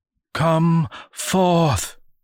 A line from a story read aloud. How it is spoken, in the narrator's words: cried the eldest, her voice a jagged wail